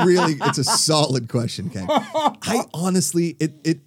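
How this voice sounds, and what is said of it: Usual voice. Nothing is said of it.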